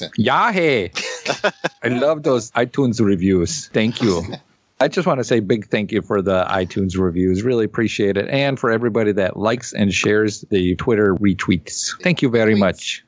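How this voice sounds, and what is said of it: Put-on German accent. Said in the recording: “do it with a German accent”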